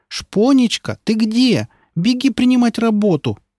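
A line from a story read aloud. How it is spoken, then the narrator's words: Shout. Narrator (Russian): кричала та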